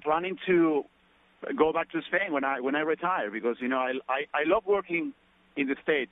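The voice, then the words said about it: Spanish accent with Australian tinge. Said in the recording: “I think I actually hear your Spanish or Australian accent ... You can catch some of my accent from there”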